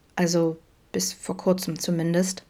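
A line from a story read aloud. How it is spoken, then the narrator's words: Murmured. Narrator (German): murmelte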